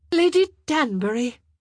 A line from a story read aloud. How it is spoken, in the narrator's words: she called out